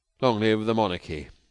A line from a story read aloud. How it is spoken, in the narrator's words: said Roland wearily